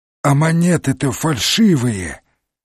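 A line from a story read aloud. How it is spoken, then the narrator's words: Strangled voice. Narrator (Russian): заявила она сдавленным голосом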